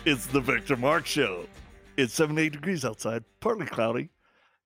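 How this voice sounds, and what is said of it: Exaggerated radio announcer voice. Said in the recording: “radio voice”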